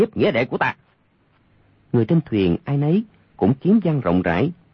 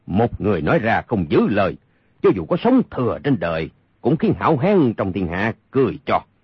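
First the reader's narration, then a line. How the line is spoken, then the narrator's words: Cold statement. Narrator (Vietnamese): Âu Dương Phong lạnh lùng nói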